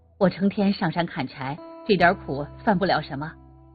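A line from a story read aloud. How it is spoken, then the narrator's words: Happy, laughing. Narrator (Chinese): 高兴地笑着说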